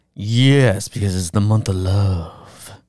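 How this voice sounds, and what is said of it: Put-on creepy deep voice. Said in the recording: “you have the deep voice ... That's actually a really creepy voice ... It's too much”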